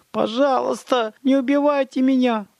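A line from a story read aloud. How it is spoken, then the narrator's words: Sob. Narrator (Russian): всхлипнул Бишоп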